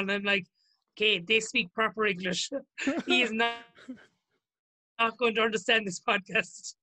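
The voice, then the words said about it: Strong regional accent. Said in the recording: “your accent is so strong ... Yeah, it's very strong”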